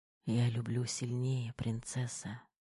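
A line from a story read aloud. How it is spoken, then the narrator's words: Whisper. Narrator (Russian): шепнул Кир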